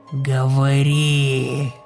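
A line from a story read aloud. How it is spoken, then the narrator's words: Loud hoarse voice. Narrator (Russian): Его хриплый голос, казалось, вытеснял все остальные звуки ночного леса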